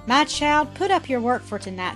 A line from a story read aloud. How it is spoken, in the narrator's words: said Mrs